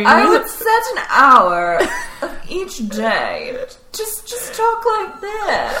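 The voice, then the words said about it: Put-on transatlantic accent. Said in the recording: “I would just perfect my transatlantic accent.”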